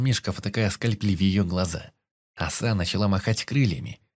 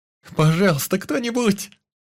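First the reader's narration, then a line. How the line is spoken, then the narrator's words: Distant wailing. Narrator (Russian): продолжал вопить Юсуф где-то сбоку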